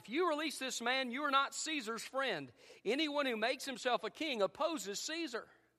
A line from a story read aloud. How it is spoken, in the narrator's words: the Jews shouted